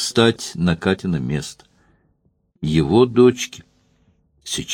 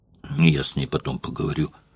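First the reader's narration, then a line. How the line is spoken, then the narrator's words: Muttered. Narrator (Russian): пробормотал он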